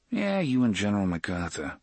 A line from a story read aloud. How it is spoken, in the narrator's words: Eddie muttered